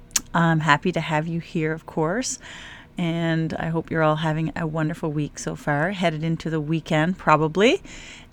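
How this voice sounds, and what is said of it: Slightly scratchy early-morning voice. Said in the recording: “it's like 5 a.m., and so my voice is probably a little scratchy”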